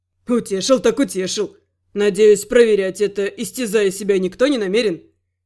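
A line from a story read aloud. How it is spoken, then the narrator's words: Ironic snort. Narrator (Russian): фыркнул Рент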